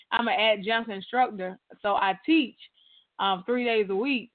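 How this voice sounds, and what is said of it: Strained, worn-out voice. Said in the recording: “I've been voice for like 3 weeks... Like today I sound better than I did yesterday... My voice is pulling back... I hadn't had an opportunity to kind of rest my voice”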